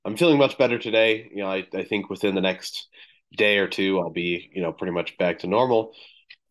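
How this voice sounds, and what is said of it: Sick, recovering voice. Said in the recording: “I was pretty sick over the last couple of days. You can probably tell in my voice that I'm still recovering from that.”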